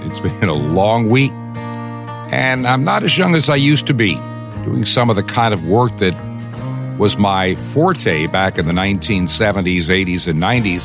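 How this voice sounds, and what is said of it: Weak, tired voice. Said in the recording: “my voice sounds a little bit weak today”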